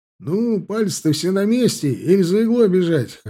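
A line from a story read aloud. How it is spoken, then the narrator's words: Laughing loudly. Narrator (Russian): хохотал Тимощук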